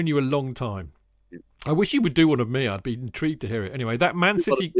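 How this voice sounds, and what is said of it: Usual voice. Nothing is said of it.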